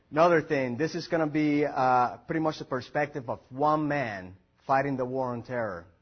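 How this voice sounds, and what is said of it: Thick Puerto Rican accent. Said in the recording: “I have a pretty thick Puerto Rican accent”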